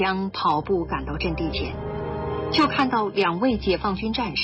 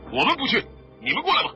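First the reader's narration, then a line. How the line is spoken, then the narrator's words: Shouted. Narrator (Chinese): 这边喊道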